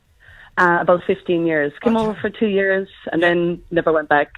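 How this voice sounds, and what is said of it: Irish accent. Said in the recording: “the Irish accent stays with me ... your accent's never going to go”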